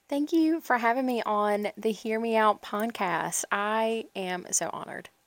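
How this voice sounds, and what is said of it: Light country accent. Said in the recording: “I love your little, like, country accent. It's so cute.”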